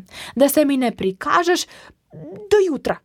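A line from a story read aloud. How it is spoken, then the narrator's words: Calling after someone. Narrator (Slovenian): je zaklicala za njim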